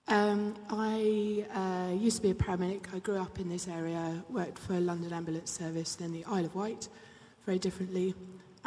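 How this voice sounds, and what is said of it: Hoarse, partly lost voice. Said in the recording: “I've lost my voice a bit.”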